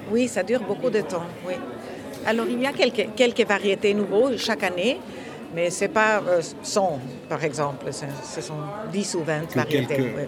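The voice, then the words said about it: Dutch accent in French. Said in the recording (French): “ce charmant accent néerlandais”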